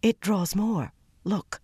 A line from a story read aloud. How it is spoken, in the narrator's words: Mera almost whispered